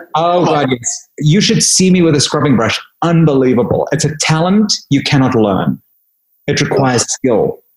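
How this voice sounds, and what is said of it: Affected British accent. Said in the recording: “I have a fake British accent”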